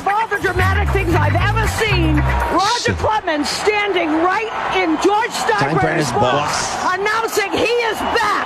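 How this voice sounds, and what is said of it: Strong Boston accent. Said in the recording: “How can you have that accent calling Yankees games? That's like the most Boston accent I've ever seen.”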